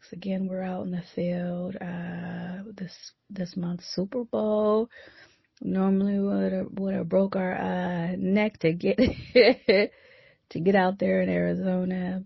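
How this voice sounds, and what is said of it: Low-energy, subdued voice. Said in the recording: “I know I don't sound as energetic as normal, but it's cold ... you don't hear it in my voice”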